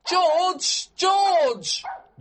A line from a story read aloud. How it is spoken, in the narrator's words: shouted too